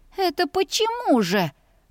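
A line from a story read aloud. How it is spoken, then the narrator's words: Dismayed squeak. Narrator (Russian): пропищала я, осознавая всю степень своего попадания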